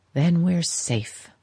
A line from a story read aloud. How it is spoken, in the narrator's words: she sighed